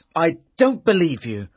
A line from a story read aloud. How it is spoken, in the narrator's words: Arthur said angrily